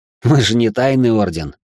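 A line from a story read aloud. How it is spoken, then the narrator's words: Snort. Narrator (Russian): хмыкнул Алекс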